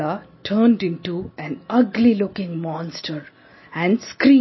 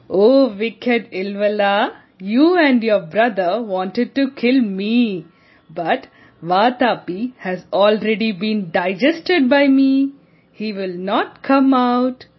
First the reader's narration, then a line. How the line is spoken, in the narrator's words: Agastya laughed and said